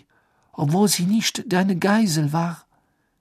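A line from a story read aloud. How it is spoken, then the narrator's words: Panting. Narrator (German): keuchte sie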